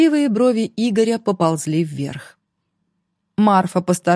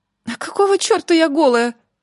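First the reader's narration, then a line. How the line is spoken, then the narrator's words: Shrill squeal. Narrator (Russian): взвизгнула Марфа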